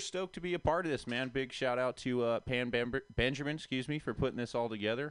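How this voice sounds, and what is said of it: Good radio voice. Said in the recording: “You have a really good radio voice, man. Sexy. ... you got a good radio voice.”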